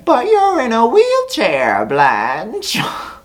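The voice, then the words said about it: Imitates another person's voice. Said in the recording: “my own impersonation”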